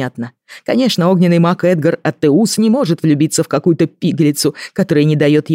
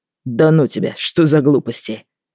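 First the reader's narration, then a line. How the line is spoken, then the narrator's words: Flustered indignant brother. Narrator (Russian): Брат вспыхнул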